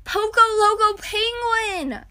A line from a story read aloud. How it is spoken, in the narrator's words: Ian cried